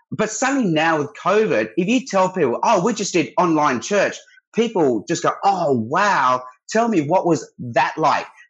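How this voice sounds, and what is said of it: Australian accent. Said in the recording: “talking in Australia, I wonder if they're as impressed with his accent as I am ... Probably might be kind of common, but we love it.”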